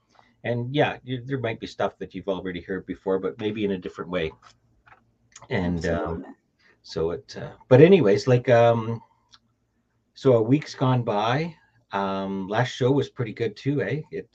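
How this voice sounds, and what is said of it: Canadian accent. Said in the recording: “I love that, eh? Canadian accent.”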